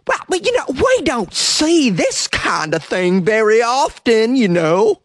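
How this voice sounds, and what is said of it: Imitates another person's voice. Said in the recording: “That was a perfect impression”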